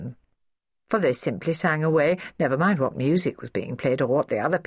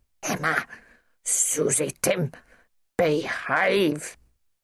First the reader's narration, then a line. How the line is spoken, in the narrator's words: hissed Nanny, squelching angrily